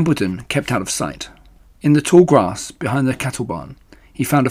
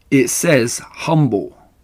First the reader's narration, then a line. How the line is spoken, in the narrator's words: replied the rat